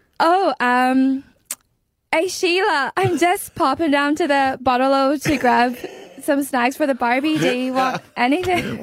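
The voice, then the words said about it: Attempted fake Australian accent. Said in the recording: “fake an Aussie accent, I can't even do it”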